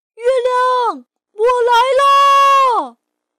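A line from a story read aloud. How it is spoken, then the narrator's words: Loud shout. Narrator (Chinese): 他大喊一声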